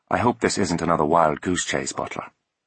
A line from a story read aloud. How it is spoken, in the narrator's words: he said, his voice soft and clipped